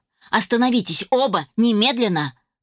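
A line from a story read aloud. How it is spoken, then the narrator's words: Shouting. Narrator (Russian): закричала я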